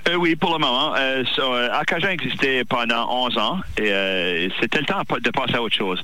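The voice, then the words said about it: Regional French accent. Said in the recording (French): “j'adore votre accent”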